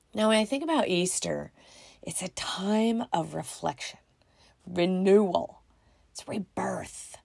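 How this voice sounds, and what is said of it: Deep, congested allergy-affected voice. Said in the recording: “people are allergic to Missouri... this is what happens when they do... my deep, sexy voice”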